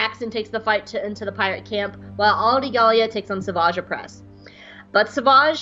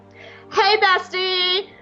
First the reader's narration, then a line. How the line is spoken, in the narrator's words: Hondo cries